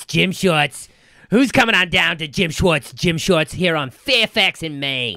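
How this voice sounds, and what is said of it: Put-on New York Jewish accent. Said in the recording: “Is that the Jewish accent? ... That's like a New York ... Jewish. ... New York 70s”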